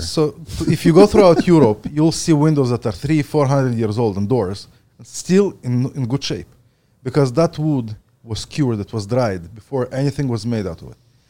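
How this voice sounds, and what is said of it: Ukrainian accent. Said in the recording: “I was born in the Ukraine. ... It's not a speech impediment. I actually have an accent.”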